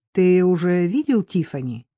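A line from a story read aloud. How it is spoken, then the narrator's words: Plain. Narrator (Russian): спросила Кэрол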